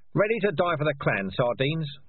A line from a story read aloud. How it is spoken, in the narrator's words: Darktan shouted